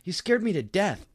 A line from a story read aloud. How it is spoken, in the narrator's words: I cried angrily